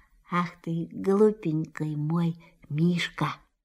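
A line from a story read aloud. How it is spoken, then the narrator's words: Tender whisper. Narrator (Russian): Кристофер Робин ласково прошептал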